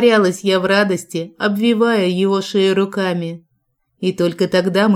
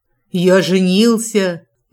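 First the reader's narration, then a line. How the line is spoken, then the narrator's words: Triumphant deep booming voice. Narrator (Russian): победно пробасил Джек, не в силах сдерживать эмоции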